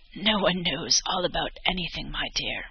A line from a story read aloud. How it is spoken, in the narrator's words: The old woman chuckled softly, as if the answer amused her, and replied